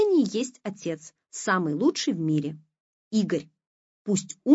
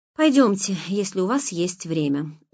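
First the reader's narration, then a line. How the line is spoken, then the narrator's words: Tired. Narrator (Russian): устало сказала она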